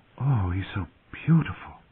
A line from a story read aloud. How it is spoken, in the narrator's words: Sansa's fervent whisper